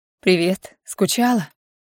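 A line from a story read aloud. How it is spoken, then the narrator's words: Quiet, tired. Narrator (Russian): Его голос звучит тихо и устало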